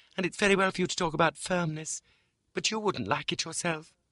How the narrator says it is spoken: cried my mother

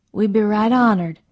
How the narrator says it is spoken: Margaret said

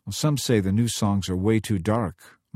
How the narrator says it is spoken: Mike said so softly he almost wasn't heard

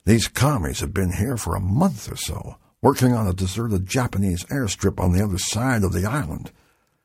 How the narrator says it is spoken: said in a hushed voice

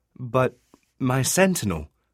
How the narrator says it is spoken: Thrivenbard said

